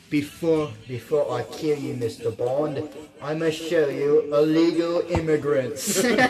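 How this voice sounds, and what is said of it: Put-on villain accent. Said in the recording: “that's where I'm going to use the accent for this one.”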